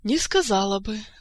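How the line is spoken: Sighing. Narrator (Russian): вздохнула

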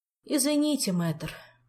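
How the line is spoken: Meek sigh. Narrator (Russian): покорно вздохнул его высочество

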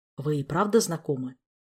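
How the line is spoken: Quiet question. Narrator (Russian): тихо спросил он

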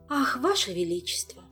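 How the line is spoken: Needless sigh. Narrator (Russian): вздохнула Тереза в очередной раз без надобности

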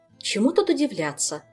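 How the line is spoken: Angry. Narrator (Russian): завела она, сердито

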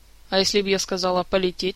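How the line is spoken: Laughing. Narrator (Russian): рассмеялась Кира

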